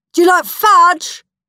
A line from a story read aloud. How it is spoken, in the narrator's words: shouted Greedy Graham